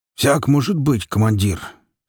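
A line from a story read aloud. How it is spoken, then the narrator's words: Hoarse bass answer. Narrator (Russian): сиплым басом ответил лейтенант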